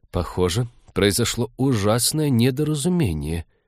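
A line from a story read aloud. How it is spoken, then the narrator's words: Muttered. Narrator (Russian): пробормотал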